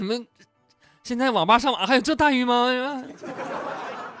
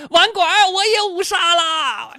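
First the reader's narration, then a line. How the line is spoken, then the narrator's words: Excited shout. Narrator (Chinese): 后排有一个哥们激动的喊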